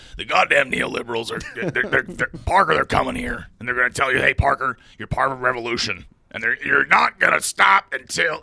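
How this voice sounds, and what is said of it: Hoarse, grainy imitation of another's voice. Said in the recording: “Is it more hoarse? ... Yeah, it's more grainy ... It's really like, bad. Okay, it's bad. It's going to hurt my voice.”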